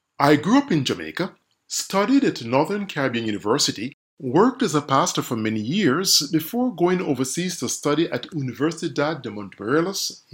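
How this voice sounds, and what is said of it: Jamaican accent. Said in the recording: “from my accent, you can tell that I'm Jamaican”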